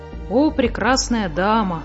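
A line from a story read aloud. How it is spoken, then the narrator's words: Sighing. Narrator (Russian): вздохнула муми-мама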